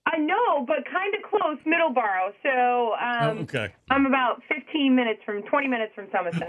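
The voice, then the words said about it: Boston-area accent. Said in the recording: “Still close enough with the accent.”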